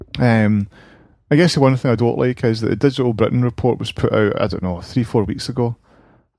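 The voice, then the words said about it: Sore-throated, rough voice. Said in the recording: “I've got a sore throat ... if I cough and sputter”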